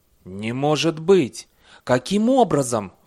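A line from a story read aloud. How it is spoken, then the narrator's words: Exclaiming. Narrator (Russian): воскликнул комиссар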